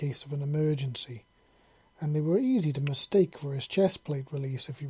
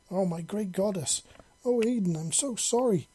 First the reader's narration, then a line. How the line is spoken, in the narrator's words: Tashara exclaimed in a panic